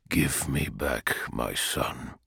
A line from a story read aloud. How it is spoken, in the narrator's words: said Perturabo, his voice low